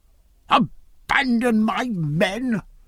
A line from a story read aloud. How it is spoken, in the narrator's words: cried Clonfert in that strange new voice